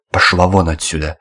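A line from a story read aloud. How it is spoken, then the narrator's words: Sharp shout. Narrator (Russian): прикрикнул поручик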